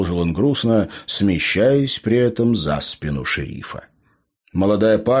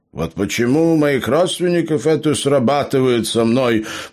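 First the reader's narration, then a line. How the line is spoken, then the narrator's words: Grumbling. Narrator (Russian): пробурчал Роберт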